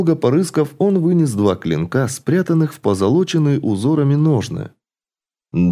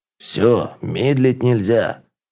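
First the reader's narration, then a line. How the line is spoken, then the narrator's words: Grumbled. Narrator (Russian): пробурчал Хьорн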